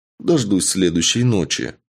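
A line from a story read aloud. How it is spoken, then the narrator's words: Calm reply. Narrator (Russian): спокойно отвечаю я Аде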